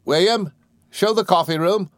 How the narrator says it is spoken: called out

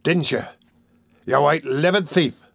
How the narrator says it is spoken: growled Sykes

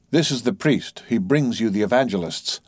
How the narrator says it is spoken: said Don Sebastian gravely

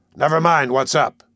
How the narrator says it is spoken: he answered gruffly

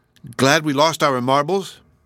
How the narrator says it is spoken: Jehoshaphat exclaimed

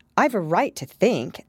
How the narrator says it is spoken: Alice said sharply, for she was beginning to feel a little worried

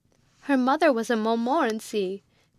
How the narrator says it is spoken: cried out the old lady

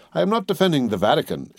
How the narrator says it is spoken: exclaimed Lucas vehemently

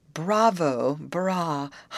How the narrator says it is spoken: hummed through the silence like the purring of a great cat

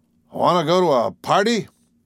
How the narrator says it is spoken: demanded Perry sternly

